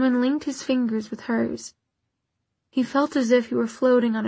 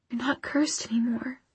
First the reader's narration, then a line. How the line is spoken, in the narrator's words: she whispered